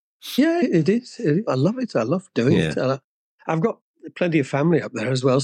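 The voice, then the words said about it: Mild Birmingham (Brummie) accent. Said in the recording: “You're a Brummie then, by the sounds of it... you sound just like Vince... He's a bit broader than I am... my accent has taken a bit of a bashing”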